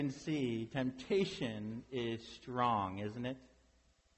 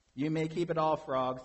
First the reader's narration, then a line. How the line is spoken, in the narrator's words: said Toad